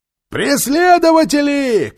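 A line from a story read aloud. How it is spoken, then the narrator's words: Shout from a crowd. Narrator (Russian): крикнул кто-то в толпе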